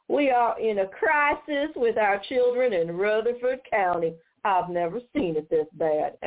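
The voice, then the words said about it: Mocking put-on Southern accent. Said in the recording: “I'm going to use a Southern accent to mock her”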